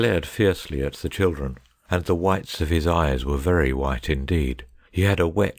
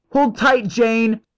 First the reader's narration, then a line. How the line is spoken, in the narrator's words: Cyril cried